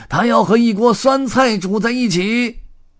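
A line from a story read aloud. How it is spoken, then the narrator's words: Roaring. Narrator (Chinese): 红胡子吼道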